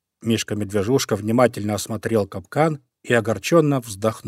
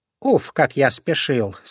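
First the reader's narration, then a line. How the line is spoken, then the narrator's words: Plain. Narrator (Russian): сказал он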